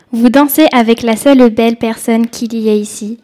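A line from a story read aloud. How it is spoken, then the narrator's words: Plain. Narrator (French): dit Darcy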